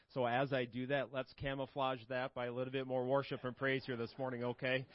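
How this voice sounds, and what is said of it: Slightly hoarse, froggy voice. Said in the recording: “my voice is a little froggy”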